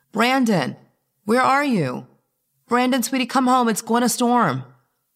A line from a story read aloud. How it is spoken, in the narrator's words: called out